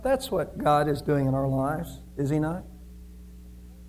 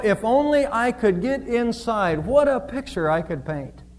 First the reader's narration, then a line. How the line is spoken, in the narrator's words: cried Michelangelo